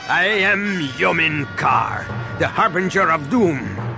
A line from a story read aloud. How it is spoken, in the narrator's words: the warrior said with a sinister laugh